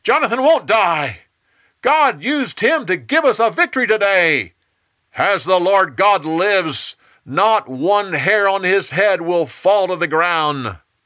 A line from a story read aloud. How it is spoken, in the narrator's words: The people shouted